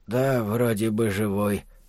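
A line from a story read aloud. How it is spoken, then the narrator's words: Quiet. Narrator (Russian): тихо произносит он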